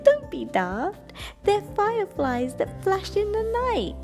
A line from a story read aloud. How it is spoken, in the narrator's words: Night Monkey laughed and said